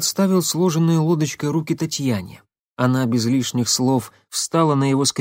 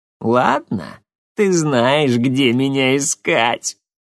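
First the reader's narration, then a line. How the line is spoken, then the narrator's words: Laughing loudly. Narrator (Russian): Илларион расхохотался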